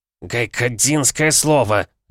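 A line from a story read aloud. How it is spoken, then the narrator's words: Old man barking. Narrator (Russian): рявкнул дед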